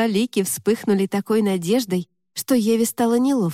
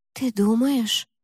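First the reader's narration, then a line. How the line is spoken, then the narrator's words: Whisper. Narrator (Russian): прошептала Лика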